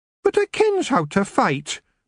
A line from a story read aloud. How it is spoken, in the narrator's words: Maggie said sulkily